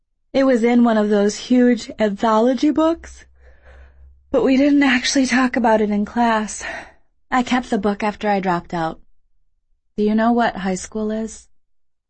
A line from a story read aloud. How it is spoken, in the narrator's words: Her voice sounded drowsy, he thought